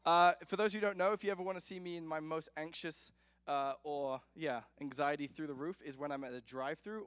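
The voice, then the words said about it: Speaker's own noticeable accent. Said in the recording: “I have an accent, and I have a problem with my accents.”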